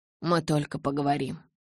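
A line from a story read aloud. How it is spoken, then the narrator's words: Quiet. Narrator (Russian): тихо сказал Эдвард Белли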